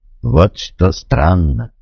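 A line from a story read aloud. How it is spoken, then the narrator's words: Slow speech. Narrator (Russian): медленно произнес он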